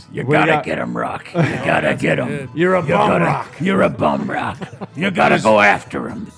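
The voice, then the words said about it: Impression of Mickey from Rocky. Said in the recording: “I was always better at doing Mickey anyways. ... That's really good. Your mouth is the same mouth he has.”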